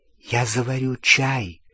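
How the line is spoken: Whisper. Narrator (Russian): шепотом сказала Гермиона

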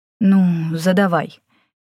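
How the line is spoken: Uncertain reply. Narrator (Russian): неуверенно отозвался Желтоглазый

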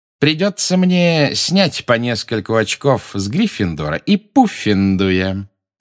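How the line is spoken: Drawled. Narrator (Russian): протянул он

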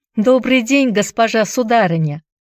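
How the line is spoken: Ringing voice. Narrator (Russian): Хайди звонким голосом проговорила

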